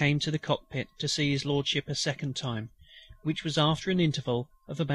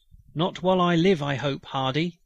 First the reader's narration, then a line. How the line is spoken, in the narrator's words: cried the dying chief